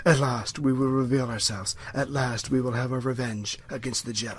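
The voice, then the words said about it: Menacing villain character voice. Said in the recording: “Darth Maul impersonation.”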